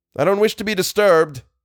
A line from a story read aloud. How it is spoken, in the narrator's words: shouted Algernon irritably